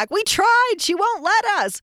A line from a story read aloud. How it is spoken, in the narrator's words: Armando and Laura are yelling back